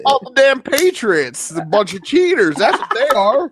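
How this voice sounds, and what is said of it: Put-on Southern twang. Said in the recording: “the Southern twang, that's hilarious.”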